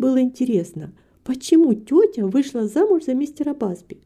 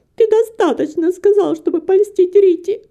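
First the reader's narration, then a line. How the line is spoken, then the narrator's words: Sobbing. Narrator (Russian): всхлипывала Антонетта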